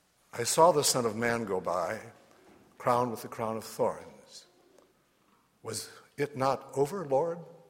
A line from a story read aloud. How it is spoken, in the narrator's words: said I